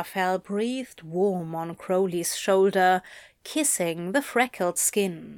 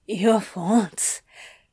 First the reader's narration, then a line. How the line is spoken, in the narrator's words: Crowley gasped, but not unkindly